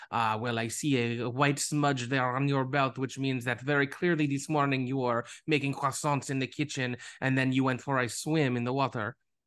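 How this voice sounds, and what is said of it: Very good Poirot character impression. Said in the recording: “you could be Perot. You're doing a very good impression.”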